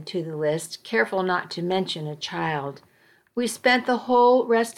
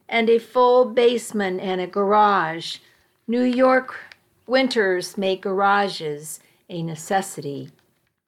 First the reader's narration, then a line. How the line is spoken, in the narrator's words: He laughed, playing along with me